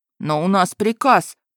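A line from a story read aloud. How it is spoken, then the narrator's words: Mumbled. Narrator (Russian): промямлил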